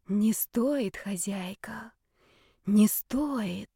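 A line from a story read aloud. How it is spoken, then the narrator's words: Many rustling whispering voices. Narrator (Russian): зашептало, зашелестело множество голосов, переплетающихся воедино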